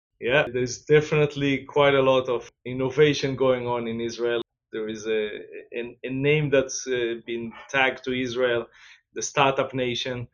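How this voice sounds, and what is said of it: Slight Israeli accent. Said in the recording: “I noticed a little accent there ... the accent is actually not Danish. I'm from originally from Israel”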